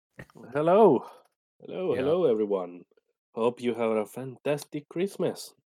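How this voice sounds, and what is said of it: Sick voice, sounds like radio announcer. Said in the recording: “why do I sound like an NPR guy? ... Maybe because I'm sick.”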